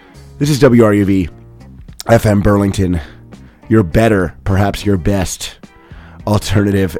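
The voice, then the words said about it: Hoarse, raspy voice. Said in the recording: “a bit of a sore throat ... lost my voice ... screamed much too much ... maybe it's a little too raspy”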